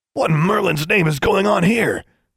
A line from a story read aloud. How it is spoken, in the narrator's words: he exclaimed